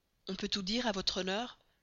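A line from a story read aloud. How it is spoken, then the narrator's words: Low voice. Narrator (French): dit-il à voix basse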